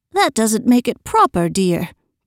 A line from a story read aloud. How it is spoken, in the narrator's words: put in her mother gently